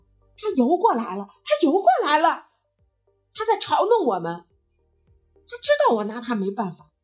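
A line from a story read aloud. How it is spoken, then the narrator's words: Excited shouting. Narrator (Chinese): 加拿大人激动地嚷道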